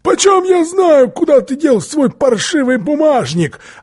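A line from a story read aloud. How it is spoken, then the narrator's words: Shouting. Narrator (Russian): Тогда Филли закричал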